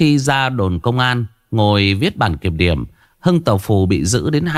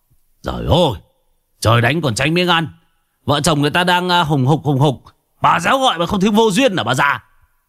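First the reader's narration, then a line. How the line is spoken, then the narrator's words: Sudden loud shout. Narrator (Vietnamese): Hưng Tàu Phù bất ngờ quát to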